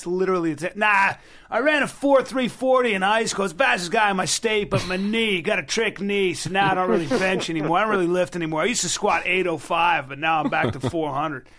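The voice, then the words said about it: Impression of a boastful gym guy. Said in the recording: “my impression of every single guy in the gym, every frustrated athlete”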